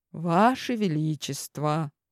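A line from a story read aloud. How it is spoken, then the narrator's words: Soothing tone. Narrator (Russian): успокаивающим тоном начал Миллер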